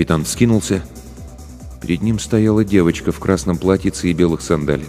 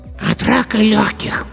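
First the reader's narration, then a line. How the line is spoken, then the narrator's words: Hoarse child's voice. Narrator (Russian): сказал хриплый детский голосок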